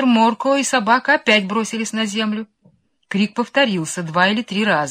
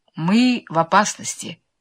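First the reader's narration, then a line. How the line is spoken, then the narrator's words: Calm. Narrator (Russian): спокойно произнес мистер Моркоу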